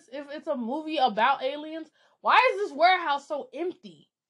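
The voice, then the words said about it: Shouting, exasperated. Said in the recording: “sorry for shouting.”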